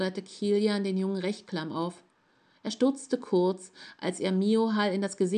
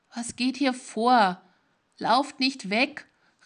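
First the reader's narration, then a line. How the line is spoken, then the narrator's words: Angry stranger shouting. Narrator (German): rief der Fremde mit dem feuerroten Kopf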